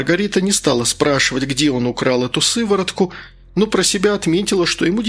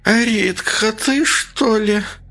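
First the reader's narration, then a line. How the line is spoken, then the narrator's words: Sudden hoarse voice. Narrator (Russian): раздался вдруг сиплый голос Валентины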